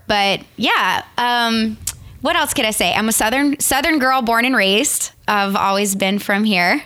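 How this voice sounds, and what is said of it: Southern Louisiana accent. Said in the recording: “people can probably tell from your accent. You're from Louisiana”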